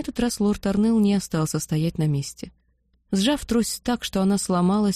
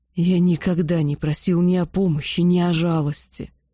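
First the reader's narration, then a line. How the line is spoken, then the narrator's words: Sudden dragon growl. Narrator (Russian): вдруг прорычал дракон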